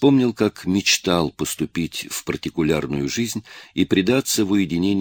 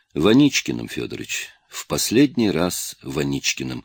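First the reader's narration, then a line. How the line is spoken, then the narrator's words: Sighing. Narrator (Russian): вздохнул Николай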